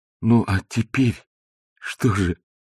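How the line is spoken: Nervous frightened question. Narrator (Russian): спросил Балаганов, испуганно улыбаясь

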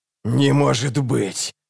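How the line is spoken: Hissing doll. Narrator (Russian): прошипела кукла

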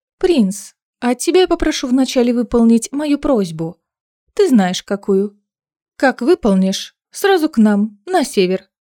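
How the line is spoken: Calm, offhand female voice. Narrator (Russian): Лиссандра спокойно и даже с некоторой небрежностью сказала

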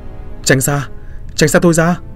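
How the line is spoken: Panicked repeated screaming. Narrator (Vietnamese): Cô hoảng hốt, mồm liên tục hét lên

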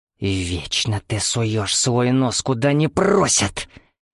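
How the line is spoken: Angry hiss. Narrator (Russian): Гневно прошипела она

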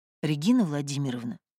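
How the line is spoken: Quiet. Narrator (Russian): говорю я тихо

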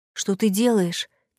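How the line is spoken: Quiet question. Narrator (Russian): тихо спросил Редмонд

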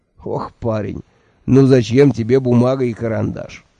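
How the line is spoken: Mocking sigh. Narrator (Russian): насмешливо вздохнул Джуфин

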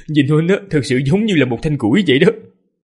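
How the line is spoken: Laughing. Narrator (Vietnamese): Ninh Khuyết nhịn không được mà bật cười, nói

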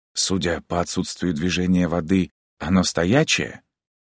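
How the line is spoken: Whispered question. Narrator (Russian): почему-то шепотом спросил я

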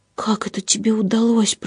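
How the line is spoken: Whispering. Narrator (Russian): прошептала Роза

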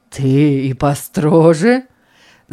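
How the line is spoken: Old man laughing. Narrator (Russian): засмеялся старик

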